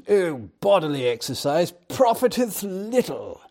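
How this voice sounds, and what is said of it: Put-on posh English accent. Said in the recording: “I can almost hear it with a high English accent.”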